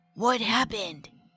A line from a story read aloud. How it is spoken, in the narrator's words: Rob also asked in a whisper